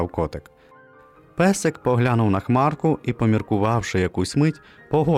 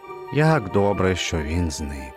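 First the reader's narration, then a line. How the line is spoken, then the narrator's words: Relieved sigh. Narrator (Ukrainian): полегшено зітхнув він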